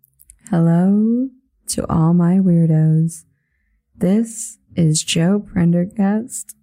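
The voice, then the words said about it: Calm public radio announcer voice. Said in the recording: “I can't maintain the NPR voice.”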